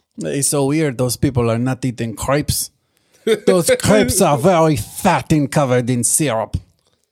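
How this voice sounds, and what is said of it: Put-on French accent. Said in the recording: “That's my French impression.”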